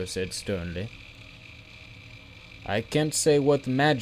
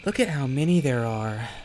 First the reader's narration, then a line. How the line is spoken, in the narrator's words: Zelle breathed